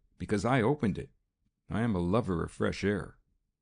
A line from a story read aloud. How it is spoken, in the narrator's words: he said with a little laugh